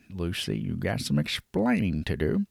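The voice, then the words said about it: Poor imitation of another person's voice. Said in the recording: “It was a bad impression. I know it was. It's terrible.”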